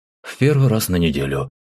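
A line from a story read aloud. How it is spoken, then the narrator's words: Calm reply. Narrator (Russian): спокойно ответил командир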